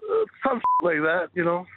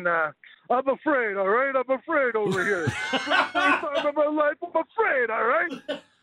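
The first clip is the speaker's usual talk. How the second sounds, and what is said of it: Sylvester Stallone impression. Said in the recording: “give us your best Flames take in a Sylvester Stallone voice”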